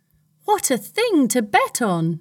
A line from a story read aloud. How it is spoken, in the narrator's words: Nerissa cried